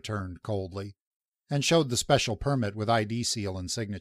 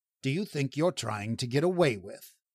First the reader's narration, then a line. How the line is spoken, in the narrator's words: he added icily